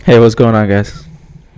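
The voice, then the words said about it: Sad, downcast tone. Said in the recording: “You sound a little sad.”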